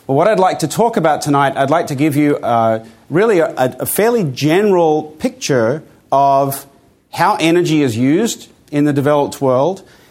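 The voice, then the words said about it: Mixed Australian and American accent. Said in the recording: “I have an accent that is neither here nor there. I grew up in Australia, in Armidale, New South Wales, and then I went and did my PhD in the US... my accent is a mixture of those things”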